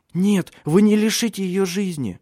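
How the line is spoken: Frightened shout. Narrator (Russian): испуганно крикнула Силия

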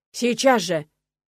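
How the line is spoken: Clan head barking. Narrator (Russian): Рявкнул глава рода

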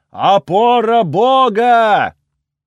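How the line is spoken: Yelling. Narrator (Russian): заорал Пас

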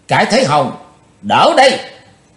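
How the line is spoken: Spirited heroic shout. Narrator (Vietnamese): hào khí của Chí Tôn bốc lên đầy mặt, chàng thét lớn

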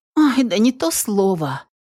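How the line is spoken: Eager exclamation. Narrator (Russian): обрадовавшись, что можно теперь пожаловаться, воскликнула Оливия

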